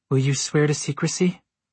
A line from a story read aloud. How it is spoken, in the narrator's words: She laughed